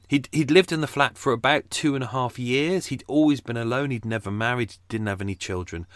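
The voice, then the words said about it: Croaky voice. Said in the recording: “I had like 6 or 7 pints last night... which is probably why I sound croaky.”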